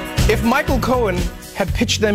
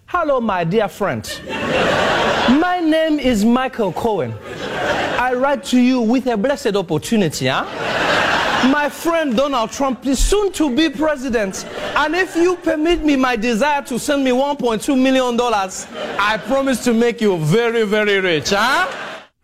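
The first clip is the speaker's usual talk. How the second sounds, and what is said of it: Put-on African accent. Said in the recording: “in an African accent ... Nigerian prince scam”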